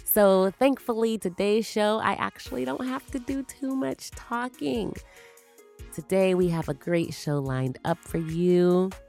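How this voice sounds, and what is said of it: Strained voice, under the weather. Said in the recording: “I am a little bit under the weather, and so my voice is not up to par, and it actually kind of hurts when I am talking.”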